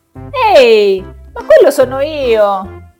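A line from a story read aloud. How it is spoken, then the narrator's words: Surprised exclamation. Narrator (Italian): esclamò quando vide la sua immagine riflessa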